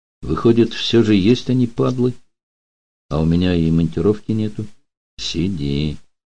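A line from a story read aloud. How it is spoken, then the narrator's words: Quiet advice. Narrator (Russian): так же тихо посоветовал Данил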